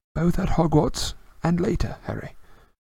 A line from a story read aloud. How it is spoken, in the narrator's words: he said gently